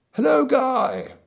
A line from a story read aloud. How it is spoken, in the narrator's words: bawled Feverstone suddenly to a man in the hall beneath